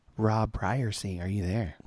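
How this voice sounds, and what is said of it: Low, sultry bedroom voice. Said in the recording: “that was my bedroom voice.”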